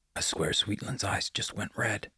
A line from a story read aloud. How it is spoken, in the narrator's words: whispered Bear